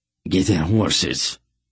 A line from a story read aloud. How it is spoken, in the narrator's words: the soldier growled